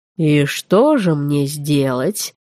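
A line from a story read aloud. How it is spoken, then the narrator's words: Lazy drawl. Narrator (Russian): лениво протянул он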